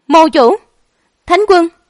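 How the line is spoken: Terrified scream. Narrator (Vietnamese): Một tiếng hét kinh hãi

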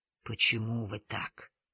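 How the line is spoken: Softly. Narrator (Russian): мягко сказал Неделин

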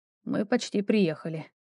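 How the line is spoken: Quiet. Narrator (Russian): тихо произнес Ровус

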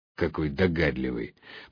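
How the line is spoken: Sarcastic grumble. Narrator (Russian): пробурчал я не без сарказма

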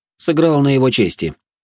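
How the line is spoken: Calm. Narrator (Russian): спокойно ответил

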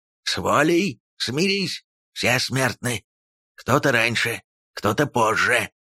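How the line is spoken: Hissing. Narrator (Russian): зашипел Халмар

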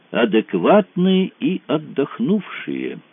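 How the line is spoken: Thoughtful drawl. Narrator (Russian): задумчиво протянул Глаголев

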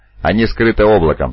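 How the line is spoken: Plain. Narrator (Russian): сказала Уксор Санзи

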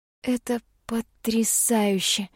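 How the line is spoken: Breathless awe. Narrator (Russian): выдохнула я, не в силах подобрать иных слов

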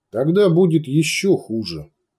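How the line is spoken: Calm promise. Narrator (Russian): спокойно пообещал Сантьяго

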